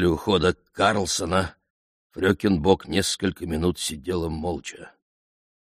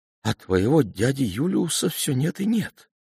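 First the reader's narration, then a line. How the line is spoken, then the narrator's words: Sighing. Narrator (Russian): вздохнула она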